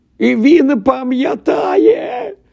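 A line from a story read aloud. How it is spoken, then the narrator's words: Proud shout. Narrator (Ukrainian): закричав Дідалус Дігл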